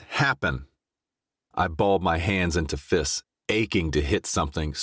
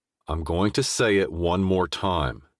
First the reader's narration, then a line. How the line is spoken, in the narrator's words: said through clenched teeth